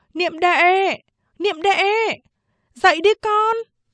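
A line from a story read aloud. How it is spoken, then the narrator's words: Mother calling loudly. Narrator (Vietnamese): Mẹ tôi lớn tiếng gọi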